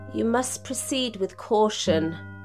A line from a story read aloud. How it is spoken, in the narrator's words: Mia heard her whisper